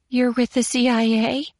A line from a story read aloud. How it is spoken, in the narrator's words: she exclaimed breathlessly